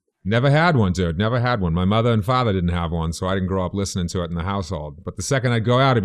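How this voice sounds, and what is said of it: Usual voice. Nothing is said of it.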